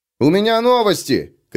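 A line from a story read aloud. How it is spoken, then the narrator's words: Shouted. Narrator (Russian): крикнул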